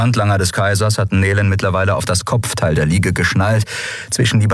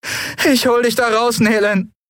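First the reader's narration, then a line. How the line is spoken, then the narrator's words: Anguished promise. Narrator (German): versprach Endriel mit gequälter Stimme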